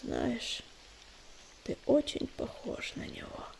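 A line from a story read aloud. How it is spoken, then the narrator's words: Whisper. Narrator (Russian): прошептал он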